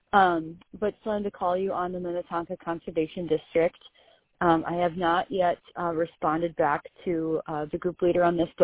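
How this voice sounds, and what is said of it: Voice sounds a little weird. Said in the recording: “my voice is a little weird today. I was out sick yesterday.”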